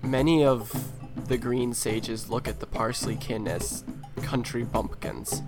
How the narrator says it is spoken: she says very quietly to you, she says

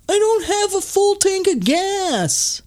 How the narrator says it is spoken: Lipton even yells after Jamie's car when it pulls away

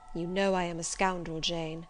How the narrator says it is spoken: he inquired wistfully

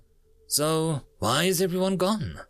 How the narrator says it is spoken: Xentus sighed, but louder

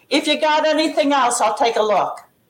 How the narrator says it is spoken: he yelled

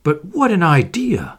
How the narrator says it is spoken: cried Monsieur Otte

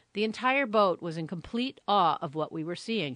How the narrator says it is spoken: she said

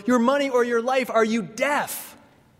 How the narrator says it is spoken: he prods the rich man with his gun and yells

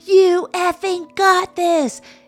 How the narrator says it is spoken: into a megaphone

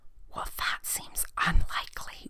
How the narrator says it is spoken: whispered the girl

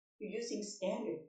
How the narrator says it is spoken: Anne said

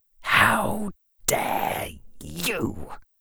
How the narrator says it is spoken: He whispered back at her

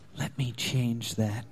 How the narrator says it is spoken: whispered

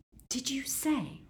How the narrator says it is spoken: murmured Ron

